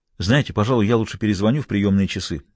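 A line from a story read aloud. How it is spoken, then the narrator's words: Hurried. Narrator (Russian): торопливо сказал он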